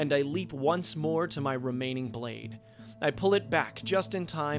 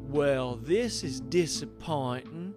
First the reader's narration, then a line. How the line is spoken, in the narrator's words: she drawls